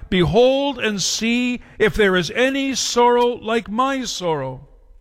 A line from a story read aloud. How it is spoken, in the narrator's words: she called out to those who passed by